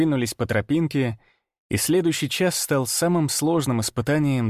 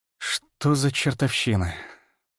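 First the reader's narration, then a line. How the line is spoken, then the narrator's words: Muttered. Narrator (Russian): пробормотал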